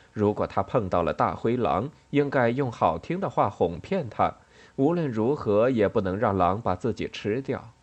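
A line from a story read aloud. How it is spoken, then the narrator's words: Mother, joking. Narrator (Chinese): 母亲开玩笑的对安迪说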